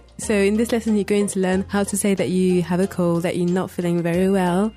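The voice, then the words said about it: Sick, congested-sounding voice. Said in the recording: “You can probably tell by my voice that I'm sick.”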